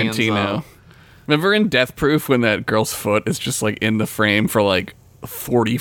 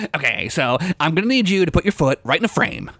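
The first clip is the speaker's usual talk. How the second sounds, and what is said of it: Good impression of a director. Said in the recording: “That's a good impression, actually.”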